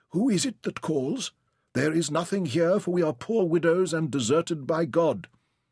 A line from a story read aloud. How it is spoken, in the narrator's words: a voice quavered